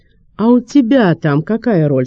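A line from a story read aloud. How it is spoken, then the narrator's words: Plain. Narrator (Russian): спросил он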